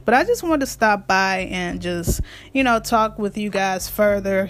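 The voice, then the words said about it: Raspy voice. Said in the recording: “my voice is getting raspy”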